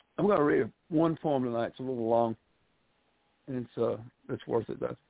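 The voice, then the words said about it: Gentlemanly Southern US accent. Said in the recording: “handsome Southern gentlemanly, you know, Southern one... Southern accent”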